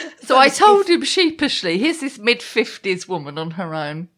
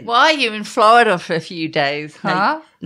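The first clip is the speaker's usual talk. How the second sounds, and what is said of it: Poor put-on American accent. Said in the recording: “Should I do that in an American accent? ... Can you do an American accent? ... No, you can't.”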